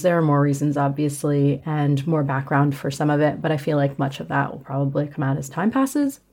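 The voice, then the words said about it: Australian accent. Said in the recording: “there's my Australian accent”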